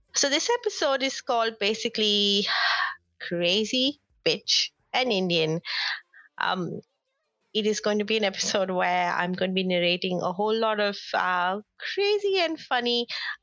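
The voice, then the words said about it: Slightly nasal, congested voice. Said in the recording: “I'm a bit under the weather. My voice might sound a little bit nasally”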